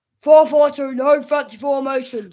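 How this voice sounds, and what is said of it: Imitates another person's voice. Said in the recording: “your famous impression of the Everton manager ... do a better Dash impression ... That was good.”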